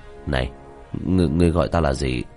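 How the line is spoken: Trembling voice. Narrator (Vietnamese): khóe miệng run rẩy

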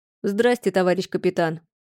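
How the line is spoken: Colorless voice. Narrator (Russian): проговорил своим бесцветным голосом

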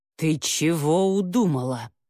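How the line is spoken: Cold, through teeth. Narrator (Russian): холодно процедила Яга

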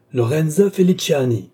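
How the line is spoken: Commanding, overpowering shout. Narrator (French): cria le comte, dominant tout

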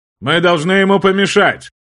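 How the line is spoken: Loud shout. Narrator (Russian): Громко выкрикнул герцог де Бофремон

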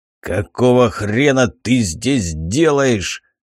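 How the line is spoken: Growled. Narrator (Russian): Рыкнул я

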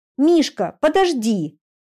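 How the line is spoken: Shout. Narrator (Russian): крикнула ему вдогонку Алиса

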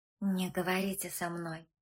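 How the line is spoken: Whispered. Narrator (Russian): шепнула и Женя

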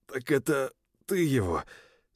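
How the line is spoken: Barely squeezed out. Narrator (Russian): еле выдавил я

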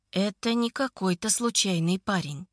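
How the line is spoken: Quiet. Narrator (Russian): тихо говорит Виктор

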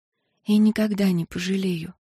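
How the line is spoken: Silent mouthed whisper. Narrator (Russian): послала она ему ментальную мысль и беззвучно прошептала

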